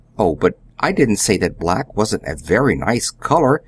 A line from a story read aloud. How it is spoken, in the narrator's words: stammered Billy a little wildly